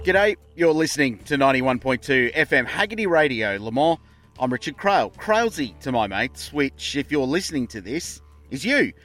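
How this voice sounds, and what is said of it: Strong Australian accent. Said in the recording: “I'm an Australian. ... I know the accent is so subtle”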